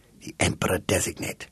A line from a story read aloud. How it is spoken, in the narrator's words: whispered the agent